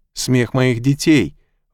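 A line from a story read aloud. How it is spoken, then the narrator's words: Deeply shaken exclamation. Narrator (Russian): воскликнул он, потрясенный до глубины души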